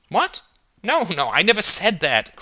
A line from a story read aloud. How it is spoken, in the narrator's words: cried Alder